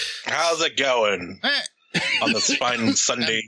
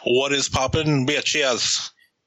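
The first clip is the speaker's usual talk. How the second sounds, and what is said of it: Put-on accent on one word. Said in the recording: “I like the little accent you put on that.”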